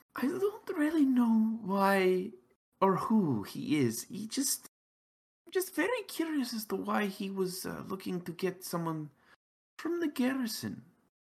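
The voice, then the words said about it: Character voice with an accent. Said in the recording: “without the accent”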